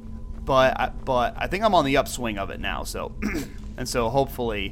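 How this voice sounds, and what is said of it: Congested, stuffy-nosed voice. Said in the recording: “I have had a cold for like a week, and my nose has just been awful... my voice doesn't sound so different... I apologize for my voice”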